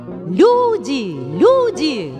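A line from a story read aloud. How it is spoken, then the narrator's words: Shouting. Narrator (Russian): кричал он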